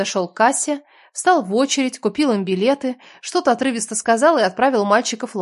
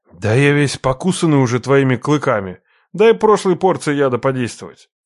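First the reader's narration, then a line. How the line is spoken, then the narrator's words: Snorting. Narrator (Russian): хмыкнул Хасан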